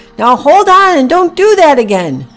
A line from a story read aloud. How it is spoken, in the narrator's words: Packy shouted back